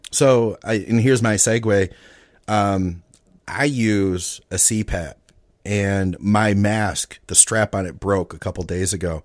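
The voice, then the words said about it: Slightly hoarse, rough voice. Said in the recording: “My voice, I don't know if you can tell, I'm like a little hoarse right now ... my throat is like all tore up today”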